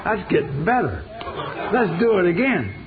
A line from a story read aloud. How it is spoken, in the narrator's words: I shouted